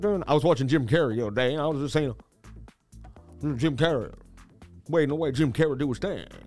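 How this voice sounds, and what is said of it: Usual voice. Nothing is said of it.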